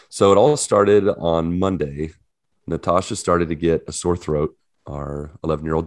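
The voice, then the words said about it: Husky, low, sick-sounding voice. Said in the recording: “I had an awful week. You can kind of hear it in my voice a little bit ... You sound a little sultry tonight ... It is a little sexier”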